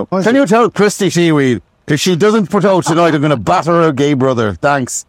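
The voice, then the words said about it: Put-on Irish accent. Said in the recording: “apologies to any Irish people. You've suffered enough. You don't need me doing your accent.”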